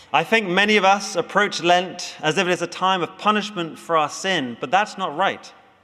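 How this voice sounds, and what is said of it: Speaker's own regional accent. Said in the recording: “Kevin's content with my accent.”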